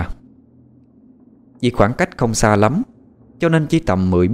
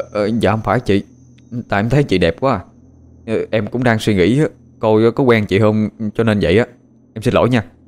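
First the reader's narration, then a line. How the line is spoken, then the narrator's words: Stammering. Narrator (Vietnamese): Nó lắp bắp nói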